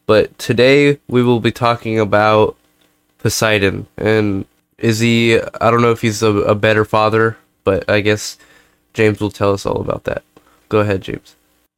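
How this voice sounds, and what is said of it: Congested, very nasal voice. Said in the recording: “I am a little bit sick... my nose is a little clogged and my voice is very nasally”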